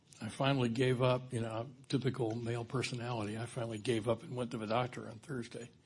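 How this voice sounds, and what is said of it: Hoarse, weakened voice. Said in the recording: “apologize for my voice. I lost my voice a week ago ... it is helping my voice come back”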